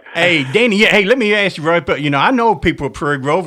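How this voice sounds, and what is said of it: Speaks with a slight regional accent. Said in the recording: “no one can mistake that little accent that ... got”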